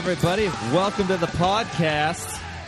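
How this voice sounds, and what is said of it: Bad put-on Boston accent. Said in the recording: “that was a terrible Boston accent”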